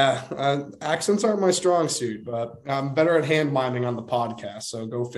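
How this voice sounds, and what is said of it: Usual voice. Nothing is said of it.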